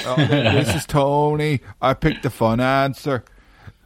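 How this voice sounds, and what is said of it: Imitates another person's voice. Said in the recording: “That's not a bad Tony impression. It's not great. But it's not bad.”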